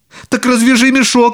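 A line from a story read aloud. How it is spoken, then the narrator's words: Child shouting. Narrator (Russian): закричал маленький Клаус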